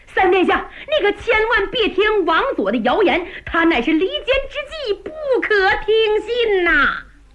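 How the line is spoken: Shouting. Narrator (Chinese): 一个人，冲着陆文龙高喊

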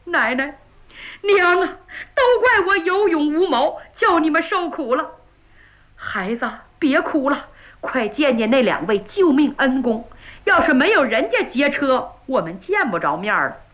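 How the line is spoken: Loud wailing. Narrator (Chinese): 岳云放声大哭

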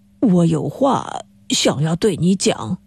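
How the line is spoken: Whispered into ear. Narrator (Chinese): 他低声地对着实习生的耳朵说

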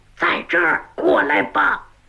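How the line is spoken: Falsetto whisper. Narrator (Chinese): 他捏着嗓子小声说

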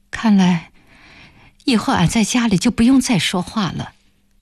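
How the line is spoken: Stunned, then sighing. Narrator (Chinese): 暖暖被问愣在了那儿，半晌才叹了一句

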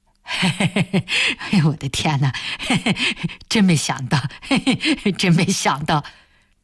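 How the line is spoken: Foolish giggling. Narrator (Chinese): 开田只是一个劲儿的傻笑着说

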